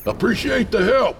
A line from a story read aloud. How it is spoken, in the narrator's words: I shouted back